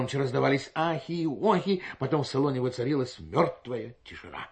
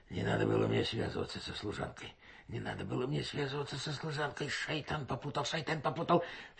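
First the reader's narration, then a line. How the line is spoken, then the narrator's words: Muttering. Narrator (Russian): Хаджи Осман Баюр бормотал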